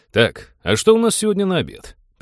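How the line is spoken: Overly cheerful interruption. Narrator (Russian): Преувеличенно бодро перебил его капитан

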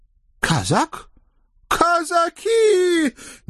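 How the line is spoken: Panicked unnatural howl. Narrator (Russian): не своим голосом взвыл мудрый работорговец

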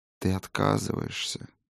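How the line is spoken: Slow, sad. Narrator (Russian): медленно произнес, печально качая головой, обращавшийся к Фроди хранитель

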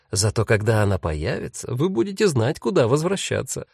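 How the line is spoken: Laughing. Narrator (Russian): рассмеялась Агата

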